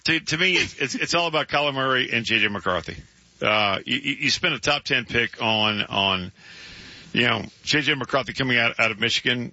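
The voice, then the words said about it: Strained, hoarse, fading voice. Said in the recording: “I'm losing my voice ... your voice is struggling a little bit”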